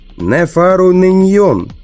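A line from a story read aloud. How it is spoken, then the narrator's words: Shouted out. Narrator (Russian): выкрикнул я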